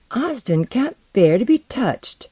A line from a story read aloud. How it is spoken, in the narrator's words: Alaru said shakily